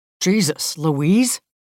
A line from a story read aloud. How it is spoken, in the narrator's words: he blurts